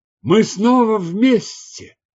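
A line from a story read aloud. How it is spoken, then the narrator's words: Exclaiming. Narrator (Russian): воскликнул он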